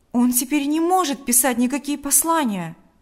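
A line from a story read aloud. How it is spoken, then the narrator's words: Exclamation. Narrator (Russian): воскликнул Павел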